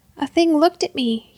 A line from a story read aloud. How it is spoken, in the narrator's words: stammered